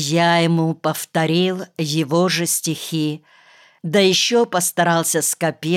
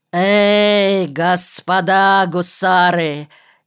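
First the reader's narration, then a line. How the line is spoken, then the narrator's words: Hoarse furious yell. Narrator (Russian): Избычившись, краснея от прилива крови, хрипло заорал он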